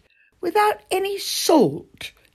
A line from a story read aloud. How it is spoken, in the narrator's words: exclaimed